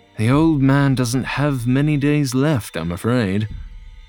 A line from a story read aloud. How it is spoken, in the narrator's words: John sighed and admitted